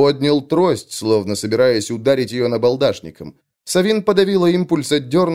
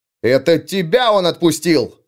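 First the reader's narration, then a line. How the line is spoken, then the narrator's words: Sharp bark. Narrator (Russian): рявкнул Лео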